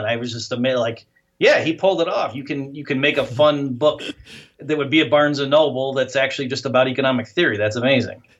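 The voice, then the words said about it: Midwestern Great Lakes American accent. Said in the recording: “your accent makes me feel right at home. I'm from Michigan ... your accent reminds me of like Illinois, like the Great Lakes region, Wisconsin, Chicago, you know, Michigan”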